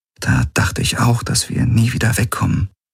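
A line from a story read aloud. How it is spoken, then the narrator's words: Quiet. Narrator (German): sagte sie leise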